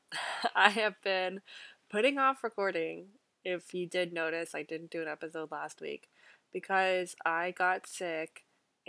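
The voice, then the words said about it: Sick, rough-sounding voice. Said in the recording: “my voice sounds messed up ... it doesn't sound great”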